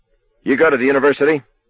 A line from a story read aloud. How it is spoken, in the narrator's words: LeBay barked suddenly